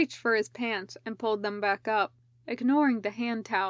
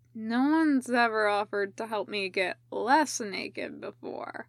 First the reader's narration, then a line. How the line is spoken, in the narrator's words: Ryoma slurred